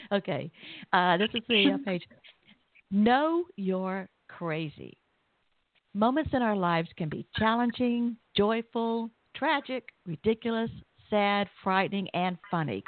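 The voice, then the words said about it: Southern American accent. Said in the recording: “you're doing quite well understanding my Southern accent ... I love it. I think it's beautiful.”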